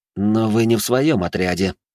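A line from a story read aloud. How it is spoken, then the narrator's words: Hissed through teeth. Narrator (Russian): процедил сквозь зубы Жумельяк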